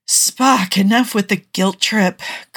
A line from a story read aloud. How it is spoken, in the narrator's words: Kirk sighs